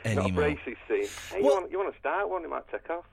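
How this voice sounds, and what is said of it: Very strong Manchester accent. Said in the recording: “Is that your real accent, or are you putting that on? ... You sound so Manchester... That it sounds like not real Manchester. ... You sound like Harry Enfield doing a crazy Manchester character.”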